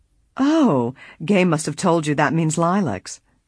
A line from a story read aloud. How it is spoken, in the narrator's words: Lily exclaimed